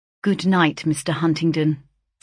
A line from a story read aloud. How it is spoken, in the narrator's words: said I, coldly